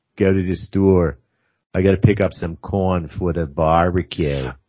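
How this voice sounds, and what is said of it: Put-on Delco accent. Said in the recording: “a Delco accent.”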